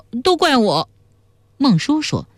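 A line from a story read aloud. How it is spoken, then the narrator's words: Crying. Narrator (Chinese): 魏汉哭道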